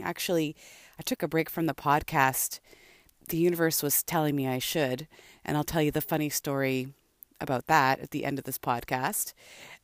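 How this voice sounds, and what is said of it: Slightly gruff, rough voice. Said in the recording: “my voice sounds a little gruff this morning”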